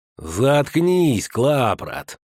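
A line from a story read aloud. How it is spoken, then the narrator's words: Slow lisping. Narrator (Russian): медленно прошепелявил тот, кого называли Щуком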